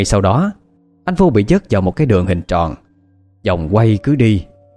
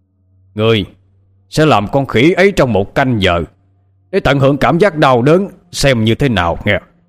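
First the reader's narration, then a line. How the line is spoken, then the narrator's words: Official's loud shout. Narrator (Vietnamese): Vị quan hét lớn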